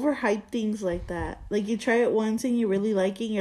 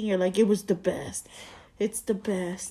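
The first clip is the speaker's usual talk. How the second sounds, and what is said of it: Exaggerated deep-voiced imitation. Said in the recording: “You don't need to get all deep voiced at me.”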